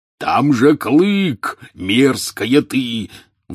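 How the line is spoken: Roaring bellow. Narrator (Russian): взревел Хагрид

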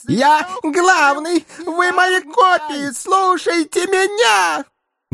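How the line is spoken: Helpless yelling. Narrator (Russian): Беспомощно вопил пузатый бес под напором своих же клонов

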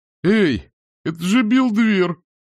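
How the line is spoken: Exclaiming. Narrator (Russian): воскликнула появившаяся из темноты фигура

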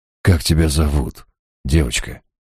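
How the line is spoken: Gentle question. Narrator (Russian): ласково спросил я

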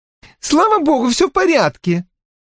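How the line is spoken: Shouting. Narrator (Russian): прокричала Кортни

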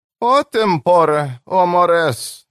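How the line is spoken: Sighed. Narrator (Russian): вздохнула Джой

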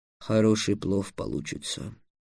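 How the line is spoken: Muttering. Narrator (Russian): пробормотал Васап

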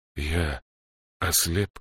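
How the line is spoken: Hoarse, constricted throat. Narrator (Russian): хрипло спросил Гудвульф, чувствуя, как судорога сводит горло

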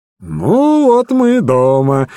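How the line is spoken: Cheerful. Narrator (Russian): весело сказал Холмс

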